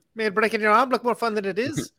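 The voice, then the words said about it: Bad put-on accent. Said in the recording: “That was good. That was a good one. ... the bad accent episode”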